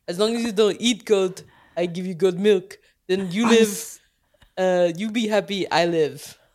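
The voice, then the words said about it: Goat character voice, Russian-sounding accent. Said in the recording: “He sounds Russian. ... That is my goat impression.”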